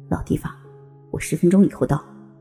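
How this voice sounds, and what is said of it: Quiet, commanding tone. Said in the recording (Chinese): “以命令的口气 小声道”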